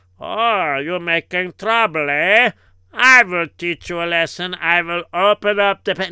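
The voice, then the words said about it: German accent. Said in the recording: “did you hear his accent? ... it sounds like he's a German descent”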